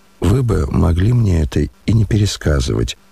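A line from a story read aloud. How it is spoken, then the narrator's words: Reproachful near-whisper. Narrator (Russian): укоризненно, чуть не шепотом заметил князь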